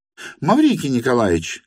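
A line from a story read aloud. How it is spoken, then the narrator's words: Shouted. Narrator (Russian): крикнула она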